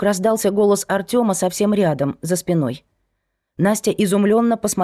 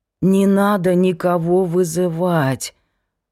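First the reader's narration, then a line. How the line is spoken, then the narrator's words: Hoarse rasp. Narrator (Russian): прохрипел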